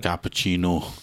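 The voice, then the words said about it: Put-on Scottish accent. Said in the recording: “doing an impression of a Scotsman ... you saying cappuccino in a Scottish accent”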